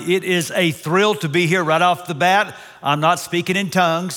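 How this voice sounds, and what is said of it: Texas accent. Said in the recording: “This is a Texas accent.”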